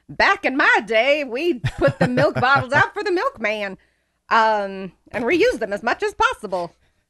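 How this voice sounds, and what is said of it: Old man voice. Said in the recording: “that's my old man voice”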